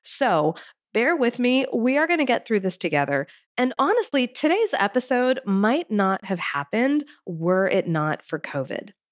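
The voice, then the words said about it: Congested, strained sick voice. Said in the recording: “the coughing set in, the congestion, and the issues with my voice ... I'm not entirely sure how long my voice is going to last”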